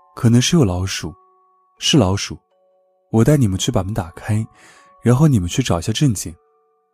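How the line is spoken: Displeased, interrupting. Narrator (Chinese): 前台脸色不太好，前台就打断他的话说

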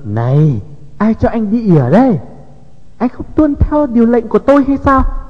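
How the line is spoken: Loud scolding. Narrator (Vietnamese): Y kêu tôi lại nạt lớn

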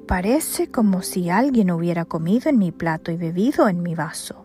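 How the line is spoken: Exclaimed. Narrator (Spanish): uno de ellos exclamó

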